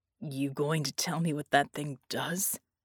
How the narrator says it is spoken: he croaked, and shuddered again as a million points of pain erupted again throughout his spent husk

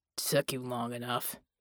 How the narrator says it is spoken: Jack muttered

